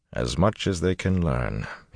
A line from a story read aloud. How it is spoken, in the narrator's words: he said flatly